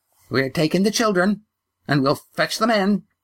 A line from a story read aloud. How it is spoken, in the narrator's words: said the grandmother, her voice shrill